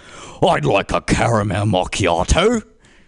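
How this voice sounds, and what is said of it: Overdone British accent. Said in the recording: “a really overdone British accent”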